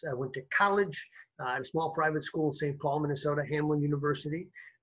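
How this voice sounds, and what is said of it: Minnesota accent. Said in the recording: “some would say I even have a Minnesota accent if you pick up on an oofda and old golly once in a while”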